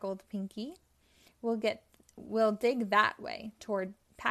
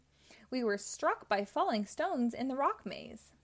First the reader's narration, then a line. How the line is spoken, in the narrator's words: cried Blinky